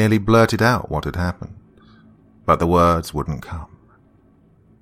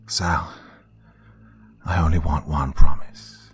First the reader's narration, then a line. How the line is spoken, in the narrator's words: he said into the phone, keeping his voice steady to avoid alarming her